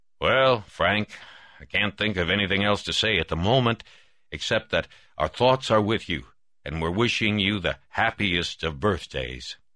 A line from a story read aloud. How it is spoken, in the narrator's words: said gruffly